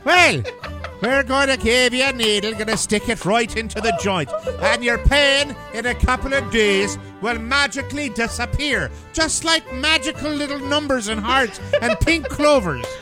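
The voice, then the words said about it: Put-on Irish accent. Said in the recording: “You have that Irish accent.”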